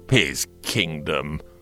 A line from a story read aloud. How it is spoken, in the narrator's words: the tribune sneered